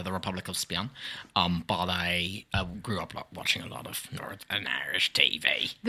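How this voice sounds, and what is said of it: Northern Irish-sounding accent. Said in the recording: “do I detect an accent? Are you from Northern Ireland?”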